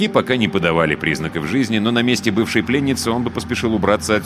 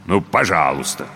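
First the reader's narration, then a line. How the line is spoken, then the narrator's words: Grumbled. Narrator (Russian): буркнул жеребец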